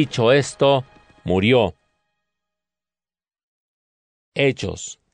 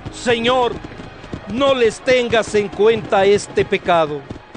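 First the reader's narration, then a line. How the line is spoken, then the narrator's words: Loud shout. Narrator (Spanish): gritó con voz fuerte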